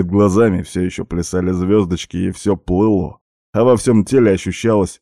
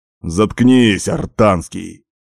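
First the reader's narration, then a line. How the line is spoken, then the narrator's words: Straining bark. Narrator (Russian): рявкнул я на него, пытаясь подняться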